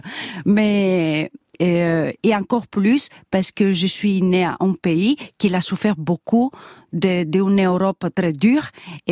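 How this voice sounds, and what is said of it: Slight Greek accent in French. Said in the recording (French): “de nationalité grecque, on l'entend un peu ... mon accent comme vous dites”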